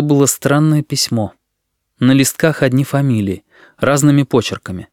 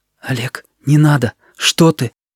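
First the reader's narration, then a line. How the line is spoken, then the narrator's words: Hurried whisper. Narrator (Russian): Торопливым шепотом Сережа сказал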